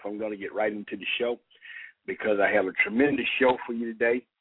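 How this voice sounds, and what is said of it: Hoarse voice from a cold. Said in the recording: “Excuse my voice, please. I'm getting past a little cold, and my voice is kind of here and there at times”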